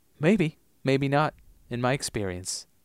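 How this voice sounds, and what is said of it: Wavering put-on Giles accent. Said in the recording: “I don't know where the accent's going. It's coming in and out. ... I'm not dialing in Giles tonight.”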